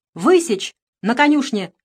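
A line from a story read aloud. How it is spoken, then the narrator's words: Sudden shout. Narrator (Russian): вдруг крикнула барыня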